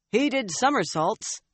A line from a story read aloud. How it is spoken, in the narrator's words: he shouted back